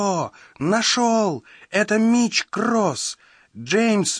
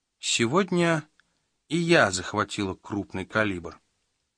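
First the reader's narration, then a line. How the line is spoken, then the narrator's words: Calm. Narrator (Russian): спокойно сообщила она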